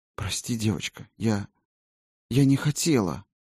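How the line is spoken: Fervent whisper. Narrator (Russian): горячо зашептала волшебница

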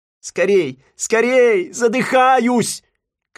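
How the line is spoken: Shouting. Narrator (Russian): кричал Симпкинс

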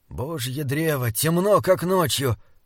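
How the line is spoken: Groan. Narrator (Russian): простонал Диарнот

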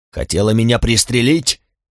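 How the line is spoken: Yelling. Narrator (Russian): вопил он

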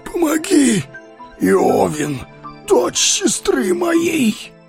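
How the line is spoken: Hoarse wheeze. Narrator (Russian): прохрипел он

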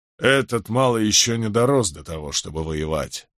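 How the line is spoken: Grumbling. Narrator (Russian): проворчал Гектор Джонсон

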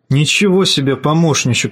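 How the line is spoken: Plain. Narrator (Russian): сказал он

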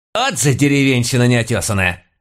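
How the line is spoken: Landlady barking. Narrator (Russian): рявкнула моя домохозяйка

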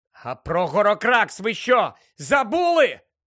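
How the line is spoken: Shouted. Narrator (Ukrainian): крикнув Гаррі

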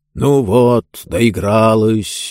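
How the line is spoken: Peevish grumble. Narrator (Russian): брюзгливо проворчал он

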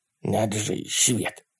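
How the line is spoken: Whispered. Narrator (Russian): прошептал Ларри

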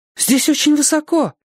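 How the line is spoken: Frightened warning. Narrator (Russian): испуганно предупредила девушка

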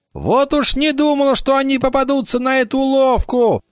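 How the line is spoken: Shouting. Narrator (Russian): закричал Кикаха

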